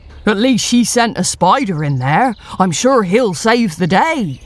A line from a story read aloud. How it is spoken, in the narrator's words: scoffs the big black cat